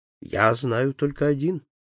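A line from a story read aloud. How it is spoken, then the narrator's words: Calm reply. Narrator (Russian): ответил спокойно Фогг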